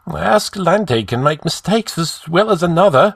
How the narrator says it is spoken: snapped Dion, sweating at the mere thought of failure

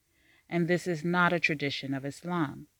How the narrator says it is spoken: said Sakina

